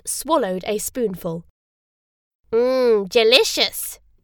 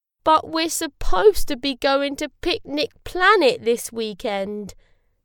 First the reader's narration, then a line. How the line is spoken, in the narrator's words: said Zap miserably